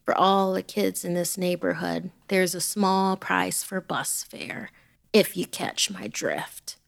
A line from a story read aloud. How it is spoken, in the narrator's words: Randy said